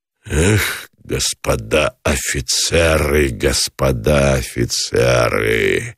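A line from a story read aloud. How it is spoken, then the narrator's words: Exhaled words. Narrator (Russian): Выдохнул Гранатуров, разжав сцепленные челюсти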